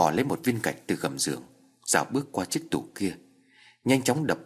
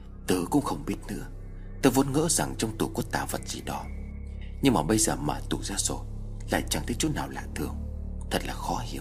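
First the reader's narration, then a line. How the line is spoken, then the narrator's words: Disappointed. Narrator (Vietnamese): Tôn Kim Nguyên lại tỏ ra thất vọng, nói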